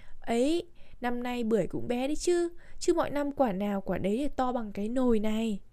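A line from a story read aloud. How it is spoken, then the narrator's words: Smiling, natural reply. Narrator (Vietnamese): mỉm cười và đáp lại tự nhiên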